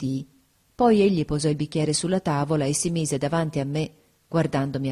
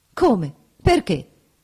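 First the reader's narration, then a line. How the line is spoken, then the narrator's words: Quick exclamation. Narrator (Italian): esclamò rapidamente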